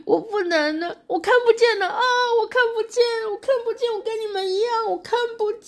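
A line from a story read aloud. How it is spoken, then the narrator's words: Bursting into tears. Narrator (Chinese): 努涅斯就哭出来说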